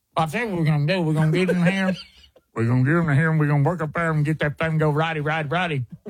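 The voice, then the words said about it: Deep-voiced buck-toothed redneck voice. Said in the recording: “Try deep voice buck tooth ... We got to redneck him up a little bit”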